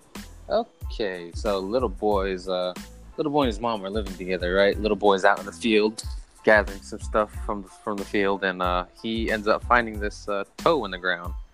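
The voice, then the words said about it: Spooky storytelling voice. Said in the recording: “In your scary story voice ... In my scary story voice.”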